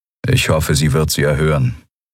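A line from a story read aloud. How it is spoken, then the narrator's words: Toneless voice. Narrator (German): sagte Telios mit tonloser Stimme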